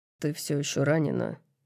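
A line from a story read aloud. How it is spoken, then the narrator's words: Muttering. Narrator (Russian): бормочет он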